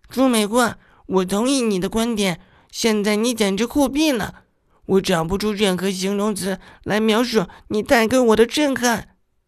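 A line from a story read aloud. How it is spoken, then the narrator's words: Loud. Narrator (Chinese): 白珍珍大声说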